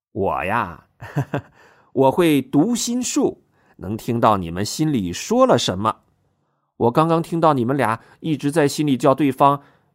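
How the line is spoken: Hearty laugh. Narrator (Chinese): 蓝光爽朗的笑了

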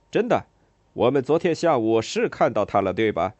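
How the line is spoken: Shouting. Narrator (Chinese): 冲着吉奥拉喊

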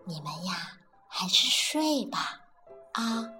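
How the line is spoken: Soft, explaining. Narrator (Chinese): 巴蒂轻声的解释道

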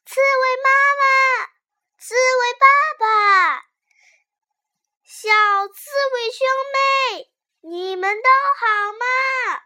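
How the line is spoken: Shouting into burrow. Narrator (Chinese): 对着洞里大喊

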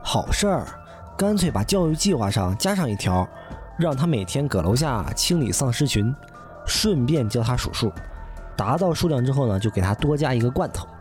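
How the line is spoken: Sighing exclamation. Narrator (Chinese): 我感叹道

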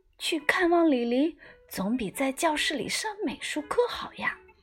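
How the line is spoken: Quiet, hushed. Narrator (Chinese): 我小声告诉姜小牙

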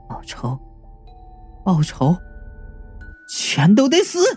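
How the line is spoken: Confused repetitive mumbling. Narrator (Chinese): 云美的神智又陷入了混乱状态，跟复读机一样喃喃的自语

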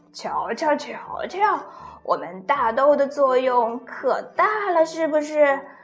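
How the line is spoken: Laughing, chattering. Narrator (Chinese): 老豆豆一直在笑，一直在笑，他还不停的说

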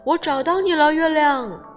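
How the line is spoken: Loud excited shout. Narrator (Chinese): 小熊大声叫

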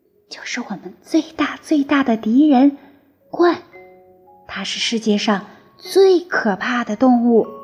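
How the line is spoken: Whisper. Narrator (Chinese): 费迪南小声说

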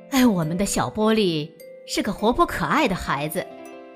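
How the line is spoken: Sighing. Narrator (Chinese): 爸爸叹了口气说

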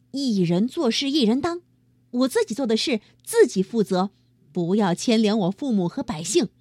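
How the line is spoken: Loud, resolute. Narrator (Chinese): 哪吒对四海龙王大声说

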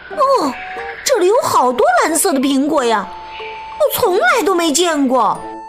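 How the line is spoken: Surprised shout. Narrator (Chinese): 布特惊讶的喊道

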